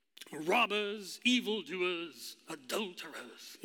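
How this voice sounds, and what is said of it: Haughty put-on British accent. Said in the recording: “You can just hear it. ... you kind of have that British, you know, haughty accent.”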